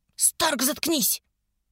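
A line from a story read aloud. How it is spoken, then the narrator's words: Hissed. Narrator (Russian): прошипел староста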